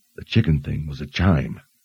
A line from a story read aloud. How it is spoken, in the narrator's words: said, keeping his voice low